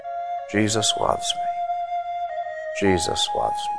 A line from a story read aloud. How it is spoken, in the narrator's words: near death, he repeated ever so softly to himself